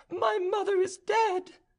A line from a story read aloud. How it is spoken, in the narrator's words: Elizabeth burst into tears and cried out